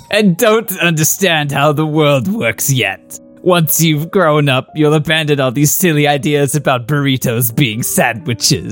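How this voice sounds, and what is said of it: Evil villain character voice. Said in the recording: “in an evil voice”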